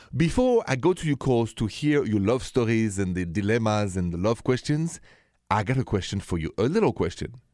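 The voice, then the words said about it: French accent. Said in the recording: “The accent is French, straight from Paris.”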